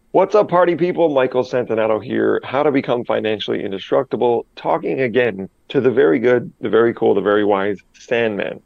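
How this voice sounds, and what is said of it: Slightly congested, sick-sounding voice. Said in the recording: “I have a little bit of a cold I'm getting over”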